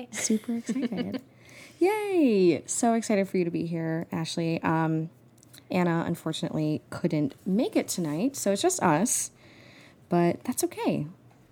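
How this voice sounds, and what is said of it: American accent. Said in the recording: “a Formula One podcast in an American accent”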